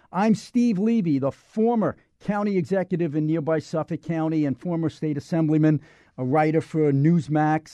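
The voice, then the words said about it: Brooklyn accent. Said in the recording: “this Brooklyn accent”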